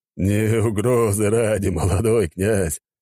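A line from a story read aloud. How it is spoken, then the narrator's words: Laughing. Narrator (Russian): рассмеялся Костров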